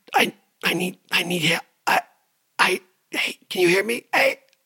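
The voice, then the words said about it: Tight, breathy secretive whisper. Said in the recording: “that tight, pressurized air ... like you get the wind knocked out of you, and you're trying to tell a secret ... in a secretive voice”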